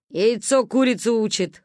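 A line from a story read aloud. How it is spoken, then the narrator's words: Skeptical grunt. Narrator (Russian): хмыкнул Гоги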